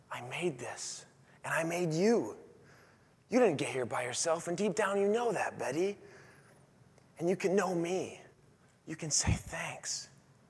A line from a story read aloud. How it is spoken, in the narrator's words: God whispering to Betty